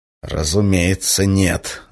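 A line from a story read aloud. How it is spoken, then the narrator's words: Angry exhale. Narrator (Russian): зло выдохнул контрразведчик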